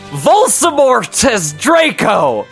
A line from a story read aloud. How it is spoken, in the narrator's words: We shouted at the same time